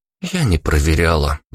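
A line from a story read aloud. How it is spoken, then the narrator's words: Sighed. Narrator (Russian): вздохнула Ника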